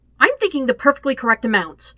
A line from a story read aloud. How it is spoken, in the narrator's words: Sokka snaps back